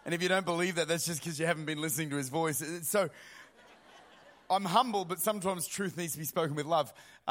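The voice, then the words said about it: Australian accent. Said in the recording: “You'll find that God speaks in an Australian accent.”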